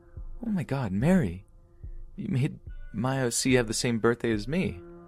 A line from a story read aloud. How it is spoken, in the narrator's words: she exclaimed